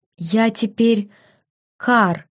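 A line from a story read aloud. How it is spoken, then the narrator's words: Breathy reply. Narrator (Russian): выдохнула в ответ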